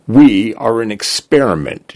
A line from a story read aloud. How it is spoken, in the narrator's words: Jay said